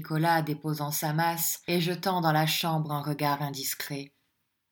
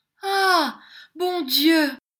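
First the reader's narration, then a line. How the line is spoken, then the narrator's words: Startled exclamation. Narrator (French): s'écria Miss Lacravey, toute saisie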